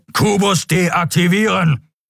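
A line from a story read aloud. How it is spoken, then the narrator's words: Thundering creature voice. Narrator (German): donnerte der Skria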